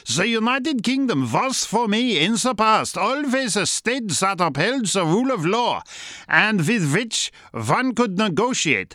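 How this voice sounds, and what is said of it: Put-on German accent. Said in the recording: “I'll do it in a German accent.”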